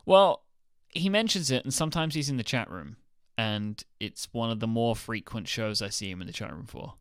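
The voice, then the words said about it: Delightful accent. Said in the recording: “You have a delightful accent”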